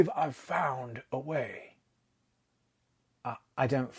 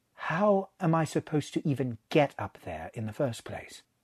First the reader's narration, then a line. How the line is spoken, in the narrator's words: said, as evenly as he could manage